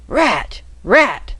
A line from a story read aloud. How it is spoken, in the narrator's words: several voices cried at once in good strong Cockney